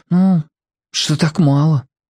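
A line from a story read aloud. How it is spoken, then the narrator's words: Breathed out. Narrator (Russian): выдохнул Марко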